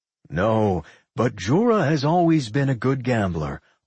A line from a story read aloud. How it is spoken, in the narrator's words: Olaf chuckled